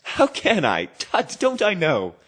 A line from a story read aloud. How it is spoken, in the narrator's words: added in the same breath laughing